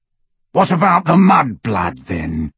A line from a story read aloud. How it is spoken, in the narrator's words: growled Greyback